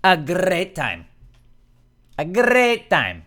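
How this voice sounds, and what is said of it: Put-on Irish or Scottish accent. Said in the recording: “I thought I did a good Irish accent. Or Scottish.”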